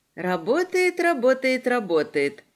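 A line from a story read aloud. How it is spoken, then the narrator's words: Sighing echo. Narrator (Russian): вздохнуло эхо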